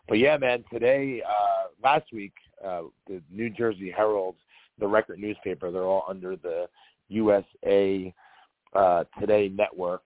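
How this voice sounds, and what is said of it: Hoarse, fading voice. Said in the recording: “if my voice goes on me during the podcast ... my voice is coming and going all week long. I don't know if I'm a horse getting sick ... if I lose my voice”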